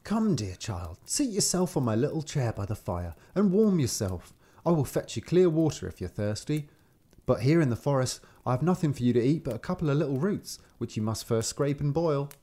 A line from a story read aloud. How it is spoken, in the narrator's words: he said quite kindly